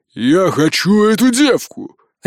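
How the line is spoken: Coarse man barking. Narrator (Russian): рявкнул мужик

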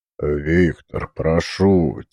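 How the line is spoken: Quiet. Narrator (Russian): тихо сказал Торбин

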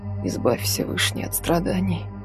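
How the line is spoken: Tearful whisper. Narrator (Russian): шептала она, смахивая слезы

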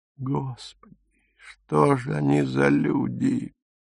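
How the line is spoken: Barely audible. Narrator (Russian): чуть слышно сказала Фрида

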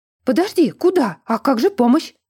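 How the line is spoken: Shouting after them. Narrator (Russian): Кричала нам вслед травница

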